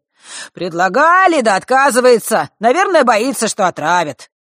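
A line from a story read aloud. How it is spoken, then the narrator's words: With a snort. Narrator (Russian): добавил мужчина, хмыкнув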